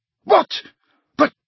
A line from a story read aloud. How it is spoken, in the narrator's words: spluttered Slughorn